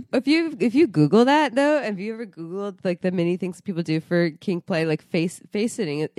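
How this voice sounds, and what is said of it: Congested, nasal voice. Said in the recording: “I am still sick, going on week 5 of sickness ... You literally have a consistent congested nose ... Yeah, it sounds awesome”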